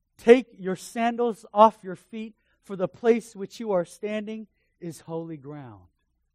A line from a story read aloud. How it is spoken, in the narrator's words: God called out to him in a burning bush, he said